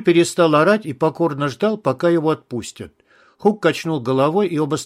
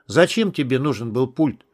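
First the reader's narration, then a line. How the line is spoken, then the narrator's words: Calm question. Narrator (Russian): спокойно спросил Хук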